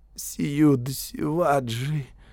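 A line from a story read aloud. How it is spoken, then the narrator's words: Trembling voice. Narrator (Russian): дрожащим голосом ответил Келладар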